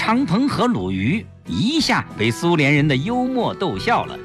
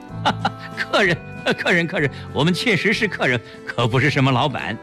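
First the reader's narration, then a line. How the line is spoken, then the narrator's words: Laughing. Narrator (Chinese): 齐长鹏笑着说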